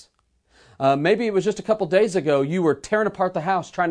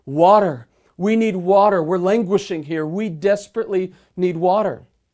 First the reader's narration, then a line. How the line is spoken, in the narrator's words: one of the Spanish sailors cried back out to the Peruvian vessel